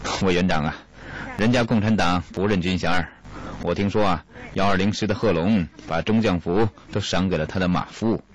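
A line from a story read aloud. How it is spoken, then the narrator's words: Wry, bitter smile. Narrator (Chinese): 何应钦苦笑着说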